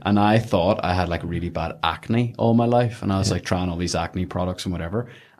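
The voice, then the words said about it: Belfast accent. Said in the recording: “He didn't have Belfast accent, but he just did in the way I told the story there.”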